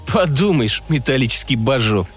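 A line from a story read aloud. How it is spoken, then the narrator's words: Contemptuous snort. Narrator (Russian): презрительно хмыкнул Кэрри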